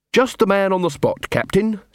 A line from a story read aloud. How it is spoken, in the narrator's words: said Carrot cheerfully